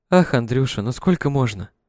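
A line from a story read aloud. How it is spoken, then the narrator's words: Purring voice over phone. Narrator (Russian): Мурлыкающий голос в телефонной трубке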